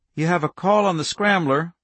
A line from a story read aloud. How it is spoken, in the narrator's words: Rachel said